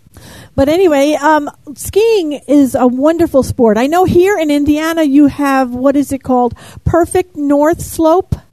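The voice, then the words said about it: New York accent. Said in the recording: “you can tell my New York accent, I'm sure.”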